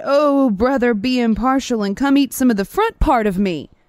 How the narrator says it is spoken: the lion cried

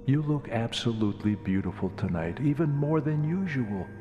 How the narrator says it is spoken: fibbed, hoping to lift her spirits

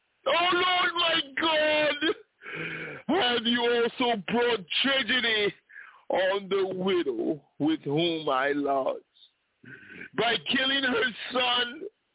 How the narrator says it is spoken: he cried out to the Lord and said

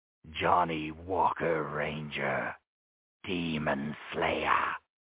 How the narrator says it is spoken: he snarled

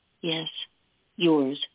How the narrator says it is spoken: she murmured

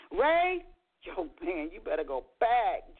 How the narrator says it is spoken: Joey chuckled

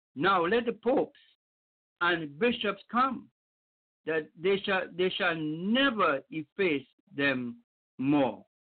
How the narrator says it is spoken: the painters, who were surrounded by an immense crowd, exclaimed

